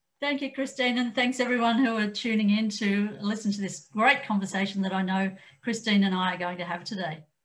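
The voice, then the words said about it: Australian accent. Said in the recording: “if you noticed an accent there, yes, ... is Australian”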